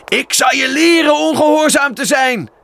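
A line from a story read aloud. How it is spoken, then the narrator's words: Shouting. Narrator (Dutch): riep hij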